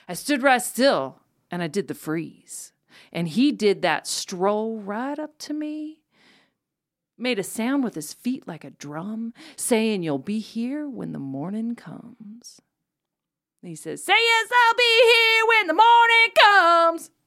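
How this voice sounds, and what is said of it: Dramatic reading with mild accent. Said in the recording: “I loved the dramatic reading, and I loved the very mild accent you developed by the second verse.”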